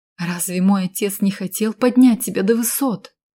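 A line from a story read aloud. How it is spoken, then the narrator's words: Exclamation. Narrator (Russian): воскликнула я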